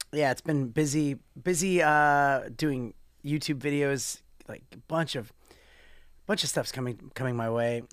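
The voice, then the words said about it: Slightly raspy voice. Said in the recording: “my voice is a little bit raspy.”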